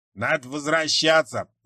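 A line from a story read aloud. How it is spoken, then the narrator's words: Grumble. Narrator (Russian): проворчал Джонсон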